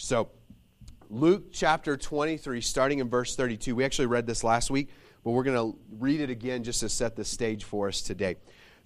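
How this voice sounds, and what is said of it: Slightly shaky voice. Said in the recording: “I was pretty sick last weekend ... my voice is still a little shaky”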